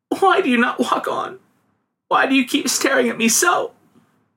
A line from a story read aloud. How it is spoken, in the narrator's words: sobbed the girl